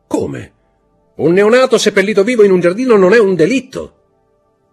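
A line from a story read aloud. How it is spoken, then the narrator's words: Shouted. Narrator (Italian): gridò Montecristo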